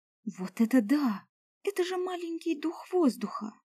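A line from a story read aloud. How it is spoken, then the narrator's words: Delighted exclamation. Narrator (Russian): Восторженно воскликнула она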